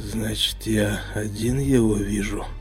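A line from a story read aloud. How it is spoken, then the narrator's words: Muttered under breath. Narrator (Russian): пробормотал себе под нос Егор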